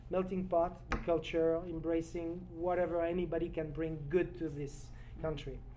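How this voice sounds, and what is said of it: French accent. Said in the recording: “as a French cook with a French accent, you can tell”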